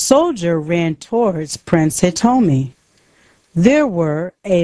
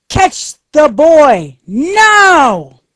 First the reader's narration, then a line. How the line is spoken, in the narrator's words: Takashi shouted to the soldiers